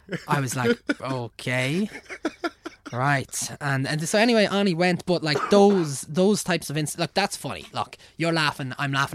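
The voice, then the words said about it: Irish accent. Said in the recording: “a fairly normal accent from Ireland”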